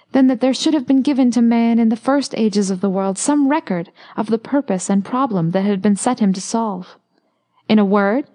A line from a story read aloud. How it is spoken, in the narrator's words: he cried